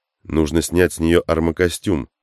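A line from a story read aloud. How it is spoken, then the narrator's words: Plain. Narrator (Russian): сказал Тейнер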